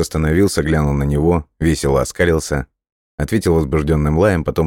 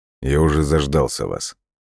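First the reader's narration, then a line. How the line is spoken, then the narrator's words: Dry reply. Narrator (Russian): сухо ответил Фаулер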